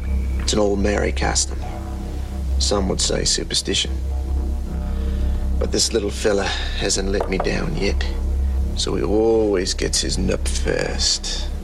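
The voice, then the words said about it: Bad New Zealand accent. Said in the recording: “doing a bad Kiwi accent the whole movie”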